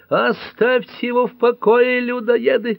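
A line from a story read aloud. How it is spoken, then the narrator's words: Shouting. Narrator (Russian): кричала Пэт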